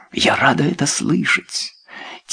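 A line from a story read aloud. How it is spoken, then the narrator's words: Quiet. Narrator (Russian): тихо сказала Люсинда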